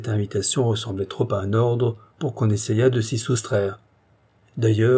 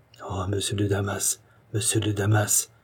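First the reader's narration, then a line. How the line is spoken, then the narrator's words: King murmuring. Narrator (French): murmura le roi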